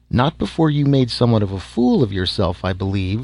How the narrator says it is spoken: she finished sweetly

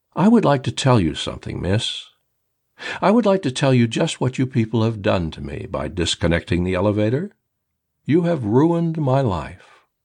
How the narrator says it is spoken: Calmly, rationally, I said

